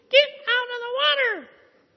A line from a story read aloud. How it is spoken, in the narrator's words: screaming and yelling